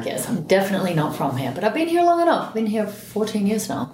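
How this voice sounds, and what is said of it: Australian accent. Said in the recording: “your accent, you know, you might not be from here ... You are so Australian”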